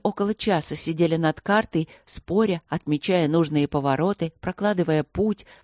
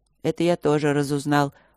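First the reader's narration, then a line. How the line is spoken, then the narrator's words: Gloomy. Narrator (Russian): проговорил Нат мрачно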